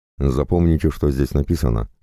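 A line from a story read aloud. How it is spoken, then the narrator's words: Plain. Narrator (Russian): сказал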